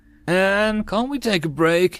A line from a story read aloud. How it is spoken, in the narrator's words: Itza whined